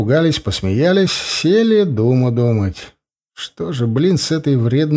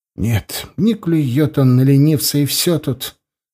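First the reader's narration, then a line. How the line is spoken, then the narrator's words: Sad sigh, spiteful boy. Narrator (Russian): грустно вздохнул злой мальчуган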